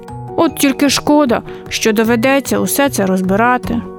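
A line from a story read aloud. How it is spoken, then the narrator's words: Sighed. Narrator (Ukrainian): зітхнув Михайлик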